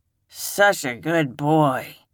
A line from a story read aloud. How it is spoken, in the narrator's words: she slurred